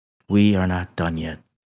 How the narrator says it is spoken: said in a serious voice

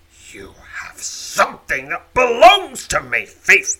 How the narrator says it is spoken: growls

